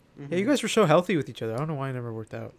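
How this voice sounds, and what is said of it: Sarcastic tone. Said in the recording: “I can't tell if you're being sarcastic... I'm being super sarcastic, dude.”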